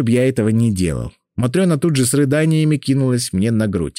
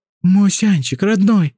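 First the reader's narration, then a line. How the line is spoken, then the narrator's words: Pleading. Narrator (Russian): взмолилась Матрена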